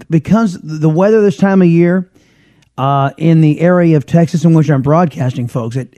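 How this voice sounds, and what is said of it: Scratchy, raspy voice. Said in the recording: “my voice is really scratchy ... it does something weird to my voice ... I've got a raspiness to the voice as it is”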